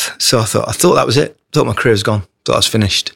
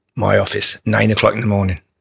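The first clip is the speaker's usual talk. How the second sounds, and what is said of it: Put-on Scottish accent. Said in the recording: “Forgive me for the terrible just Scottish accent. ... It's not bad.”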